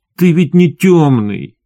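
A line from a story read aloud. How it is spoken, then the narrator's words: Almost plaintive. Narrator (Russian): почти жалобно сказал он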